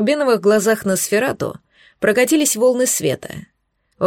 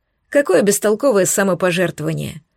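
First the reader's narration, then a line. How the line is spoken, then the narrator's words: Nightingale's snort from behind. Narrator (Russian): хмыкнул позади соловей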